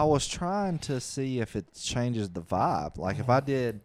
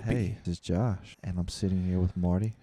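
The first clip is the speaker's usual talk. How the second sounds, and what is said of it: Slow, calm, unenergetic delivery. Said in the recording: “I was trying to do like a slow... A calming intro this week... That was creepy... this is the most unenergetic intro to a show we've ever done... Slow, calming.”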